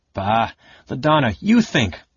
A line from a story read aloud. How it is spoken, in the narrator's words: Farsalian snapped